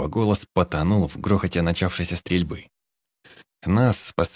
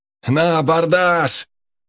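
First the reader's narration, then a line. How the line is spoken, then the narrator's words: Roaring. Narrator (Russian): Проревел Олег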